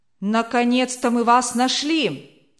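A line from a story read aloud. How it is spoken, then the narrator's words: Group shouting. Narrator (Russian): крикнули враги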